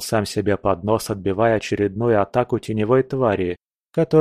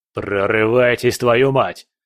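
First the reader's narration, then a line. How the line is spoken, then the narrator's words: Barked over radio. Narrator (Russian): рявкнул он в рацию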